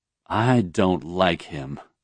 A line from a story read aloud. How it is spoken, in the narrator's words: Serene declared quietly to Aishi